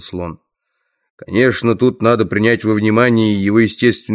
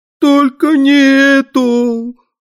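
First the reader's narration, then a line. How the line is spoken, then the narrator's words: Howled again. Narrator (Russian): вновь взвыл Дрэнк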